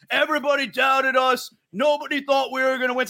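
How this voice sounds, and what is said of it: Imitates another person's voice. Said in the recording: “my Travis Kelce impression”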